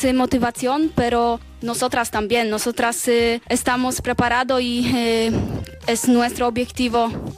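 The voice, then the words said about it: Spanish with a Polish accent. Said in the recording (Catalan): “L'escolto i em ve el cap Lewandowski... accent... Suposo que els polonesos parlen castellà, sí. Parlen així, tenen aquest accent”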